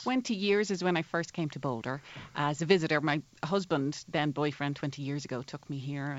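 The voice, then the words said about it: Irish accent. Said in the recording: “that Irish accent”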